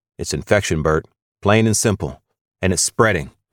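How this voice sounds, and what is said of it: Mumbling, pained speech. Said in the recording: “I'm mumbling, but it hurts to talk”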